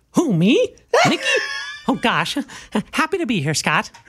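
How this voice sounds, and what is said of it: Mickey Mouse character voice. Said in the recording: “the voice of probably the most iconic cartoon character of all time, Mickey Mouse ... I don't ... Sound like that all the time”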